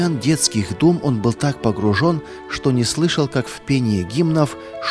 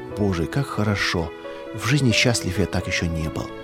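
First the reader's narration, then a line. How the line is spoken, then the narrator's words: Soft whisper. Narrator (Russian): Он тихонько шептал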